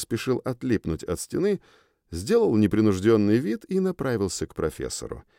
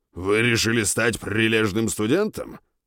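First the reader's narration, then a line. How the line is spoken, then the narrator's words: Echoing growl. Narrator (Russian): Его рычание эхом прокатилось под потолком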